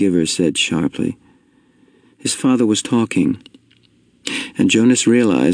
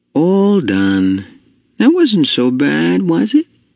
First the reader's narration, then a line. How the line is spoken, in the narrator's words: his father say cheerfully